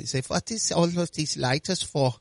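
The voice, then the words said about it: Put-on German accent. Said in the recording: “don't do your German accent anymore.”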